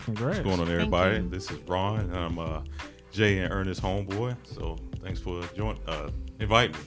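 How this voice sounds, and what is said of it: Announcer-style radio voice. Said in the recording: “I wanted to use my radio voice for a split second.”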